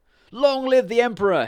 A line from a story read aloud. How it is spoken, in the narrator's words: cried